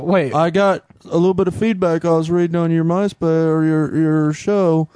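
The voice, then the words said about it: Poor imitation of another person's voice. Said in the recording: “worst Bill Clinton impersonation ever”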